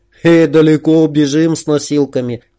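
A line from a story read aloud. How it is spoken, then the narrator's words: Sighing. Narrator (Russian): вздохнул Макс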